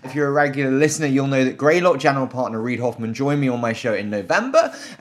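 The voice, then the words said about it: British accent. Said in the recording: “this terrible British accent”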